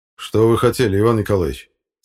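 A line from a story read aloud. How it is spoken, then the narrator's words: Stern question. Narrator (Russian): строго спросил Тимофеев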